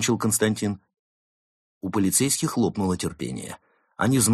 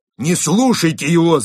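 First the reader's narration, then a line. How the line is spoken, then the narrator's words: Shout. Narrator (Russian): закричал второй волк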